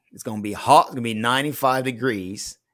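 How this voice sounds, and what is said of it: Southern accent. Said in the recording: “is that your southern accent? Is that your southern accent?”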